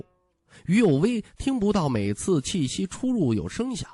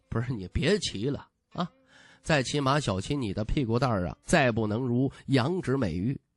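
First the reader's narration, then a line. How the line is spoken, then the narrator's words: Amused chuckle. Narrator (Chinese): 徐凤年哑然失笑，摇摇头说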